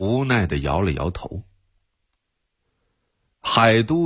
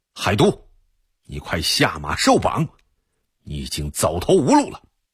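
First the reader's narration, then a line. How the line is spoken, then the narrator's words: Loud. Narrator (Chinese): 铁木儿大声说道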